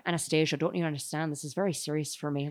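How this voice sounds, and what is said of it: Imitates slipping Irish-American accent. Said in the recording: “His Irish accent slips so much in this movie ... he's not even American anymore”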